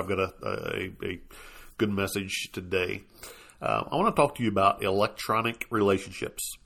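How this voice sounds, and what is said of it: Sick, strained voice. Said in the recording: “You have to excuse my voice. I'm still trying to get over this doggone virus. Makes it a little difficult to talk”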